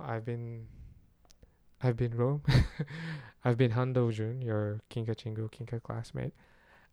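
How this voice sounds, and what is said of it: Hoarse voice. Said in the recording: “my voice is already hoarse”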